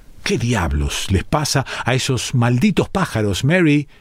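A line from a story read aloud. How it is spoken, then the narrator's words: Colonel's exclamation. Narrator (Spanish): exclamó el coronel Hampton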